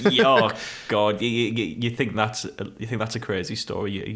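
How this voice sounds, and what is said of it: Usual voice. Nothing is said of it.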